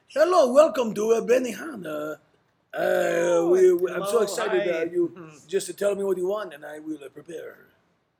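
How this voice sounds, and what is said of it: Put-on French accent. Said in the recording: “this is the accent I think should be happening ... I'm French.”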